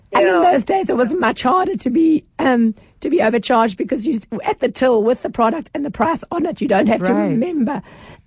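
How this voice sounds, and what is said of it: Voice sounds rough and strained. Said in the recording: “Sorry, my voice is terrible.”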